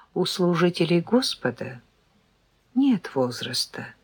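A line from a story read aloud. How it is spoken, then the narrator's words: Young man's calm explanation. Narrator (Russian): спокойно пояснил парень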